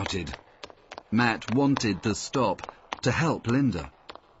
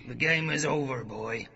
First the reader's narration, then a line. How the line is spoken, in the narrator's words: growled the man on the stairs